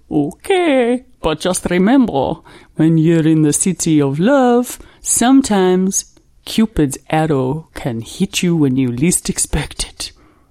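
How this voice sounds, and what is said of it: Mixed Russian, Australian, French accent. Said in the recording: “Are you Russian or French? I'm not sure. ... I was born in Russia, I grew up in Australia, and now I live in France, so my accent is big fusion.”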